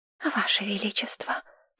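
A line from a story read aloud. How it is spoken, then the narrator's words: Obsequious whispers from everywhere. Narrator (Russian): подобострастный шепот доносился со всех сторон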